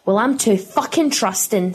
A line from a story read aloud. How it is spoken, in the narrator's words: snarled Pippa, in restrained horror